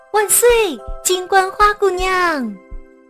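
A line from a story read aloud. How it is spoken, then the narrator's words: Joyful shout. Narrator (Chinese): 草地里的花朵 高兴地喊道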